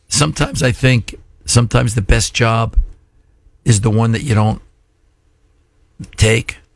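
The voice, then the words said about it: Hoarse, strained voice. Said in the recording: “Maybe that's why I lost my voice.”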